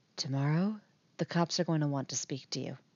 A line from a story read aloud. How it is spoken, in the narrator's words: Nancy whispers